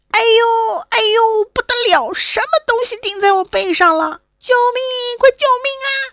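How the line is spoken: Panicked crying out. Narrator (Chinese): 他一边叫

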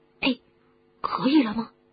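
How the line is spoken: Whispered question. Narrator (Chinese): 哈利小声的问

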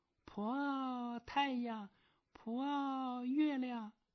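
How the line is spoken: Calling out. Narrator (Chinese): 叫着

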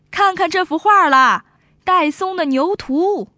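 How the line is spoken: Street vendor hawking. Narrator (Chinese): 有人叫卖

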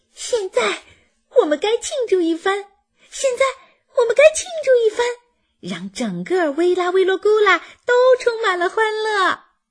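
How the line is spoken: Shouting. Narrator (Chinese): 皮皮…喊着

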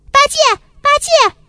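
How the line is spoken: Calling out. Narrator (Chinese): 孙悟空在叫他

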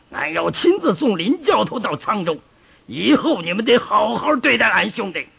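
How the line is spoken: Roaring. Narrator (Chinese): 鲁智深对差役吼道

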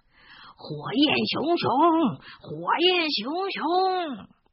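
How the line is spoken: Big man shouting loudly. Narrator (Chinese): 身后的大块头食死徒在大声的喊着

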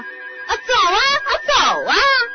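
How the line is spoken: Mouse shouting. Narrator (Chinese): 又有一只老鼠喊着说

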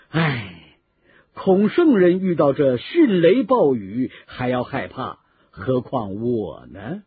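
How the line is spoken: Laughing. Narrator (Chinese): 刘备也笑着说

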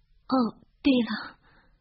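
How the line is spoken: Choked up. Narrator (Chinese): 霍敏哽咽地说

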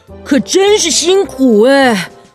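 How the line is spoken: Panting. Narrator (Chinese): 跳跳虎也喘着气说

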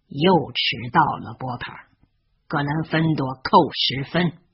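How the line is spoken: Cold. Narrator (Chinese): 斯内普冷冷地说

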